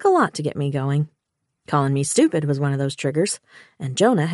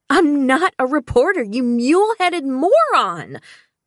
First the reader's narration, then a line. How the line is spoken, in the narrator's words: I shouted